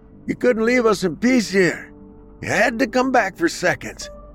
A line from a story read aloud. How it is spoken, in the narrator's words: one man yelled from his broken-down porch